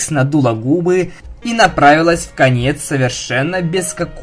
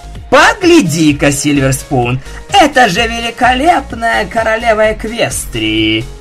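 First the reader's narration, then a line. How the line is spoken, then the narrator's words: Mocking sarcastic drawl. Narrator (Russian): Насмешливо и саркастично протянула Даймонд Тиара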